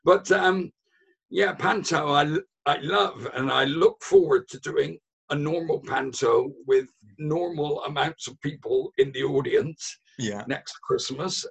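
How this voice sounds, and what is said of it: Hoarse voice. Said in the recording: “I'm still a bit hoarse from this year. My voice is not particularly good at the moment.”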